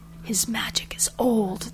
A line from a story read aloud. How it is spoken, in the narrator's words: they said in whispers blended with wonderment and fear